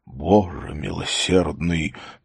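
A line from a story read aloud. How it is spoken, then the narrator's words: Whisper. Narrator (Russian): прошептал начальник полиции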